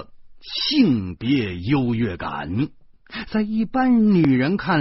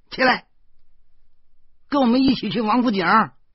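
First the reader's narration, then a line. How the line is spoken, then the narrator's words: Sudden shout. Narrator (Chinese): 老婆突然喊起来说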